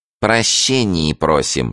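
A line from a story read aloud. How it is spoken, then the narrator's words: Rotten, nasal voice. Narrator (Russian): сказал провалившийся нос гнилым голосом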